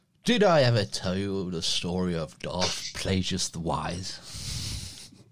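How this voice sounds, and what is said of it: Imitates a film villain's voice. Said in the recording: “That's a terrible accent, isn't it? ... that sounds, nothing like him. I'll have to work on my Palpatine.”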